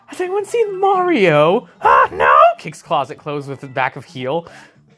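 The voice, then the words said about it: Loud Toad cartoon character voice. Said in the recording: “your Toad impression ... it's very loud. I'm sure your audio thing just spiked”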